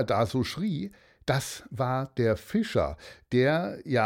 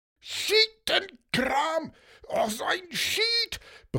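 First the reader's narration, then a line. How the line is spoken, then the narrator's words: Roaring shout. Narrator (German): brüllte er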